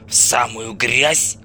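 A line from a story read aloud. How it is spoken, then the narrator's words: Grumbled. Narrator (Russian): проворчал скаут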